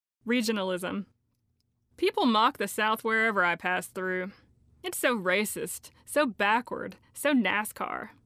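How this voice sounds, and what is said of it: Southern regional accent. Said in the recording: “people made fun of my accent my entire life”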